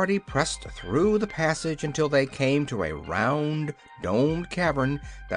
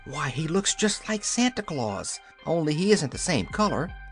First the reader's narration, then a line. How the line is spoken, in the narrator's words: whispered Dorothy